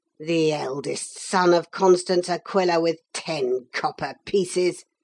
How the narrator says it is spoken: growled Oliver

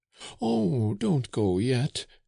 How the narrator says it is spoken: cried the old man, who was comforted by Flore's false tenderness

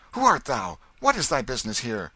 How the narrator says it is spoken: The king said angrily

